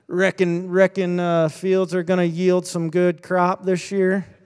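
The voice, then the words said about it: Put-on rural farmer way of talking. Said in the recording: “why am I talking like a farmer? I'm very much not a farmer.”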